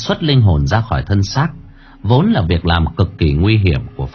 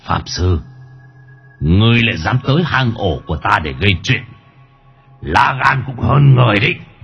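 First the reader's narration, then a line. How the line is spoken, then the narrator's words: Menacing growl. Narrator (Vietnamese): Linh hồn của hắc quỷ gầm gừ dọa nạt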